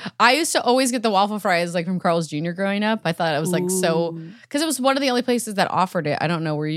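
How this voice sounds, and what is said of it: Usual voice. Nothing is said of it.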